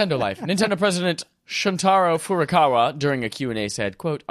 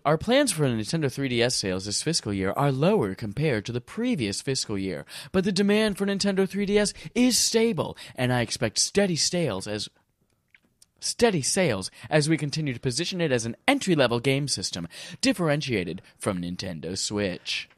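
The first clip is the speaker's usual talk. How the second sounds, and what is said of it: Imitates another person's voice. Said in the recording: “that was a really impressive impersonation of Furukawa”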